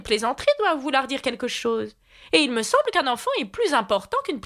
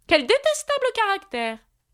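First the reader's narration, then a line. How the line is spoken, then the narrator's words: Exclaimed. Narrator (French): s'exclama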